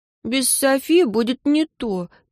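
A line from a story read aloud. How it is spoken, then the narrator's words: Sad. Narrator (Russian): печально покачала головой Агата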